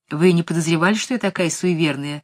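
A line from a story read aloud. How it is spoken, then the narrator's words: Laughing woman. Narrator (Russian): рассмеялась Сибилла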